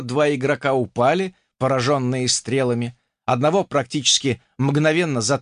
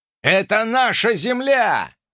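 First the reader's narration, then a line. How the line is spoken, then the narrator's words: Yelled. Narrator (Russian): заорал я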